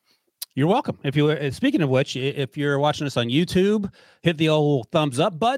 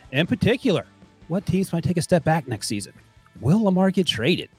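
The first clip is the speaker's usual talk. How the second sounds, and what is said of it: NPR-style radio announcer voice. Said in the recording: “you went into your NPR voice for 10 seconds”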